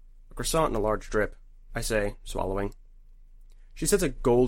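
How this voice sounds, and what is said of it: Usual voice. Nothing is said of it.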